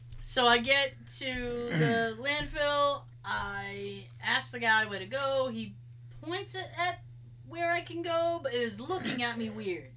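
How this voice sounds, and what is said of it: Massachusetts accent. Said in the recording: “I'm from Mass. I have that accent.”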